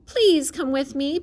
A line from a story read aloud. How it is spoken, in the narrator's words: begged Wilbur